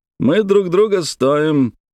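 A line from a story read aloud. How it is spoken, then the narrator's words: Emphasized joyfully. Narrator (Russian): радостно подчеркнул американец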